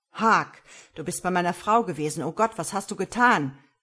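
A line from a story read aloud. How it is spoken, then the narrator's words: Called out. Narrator (German): rief ihm zu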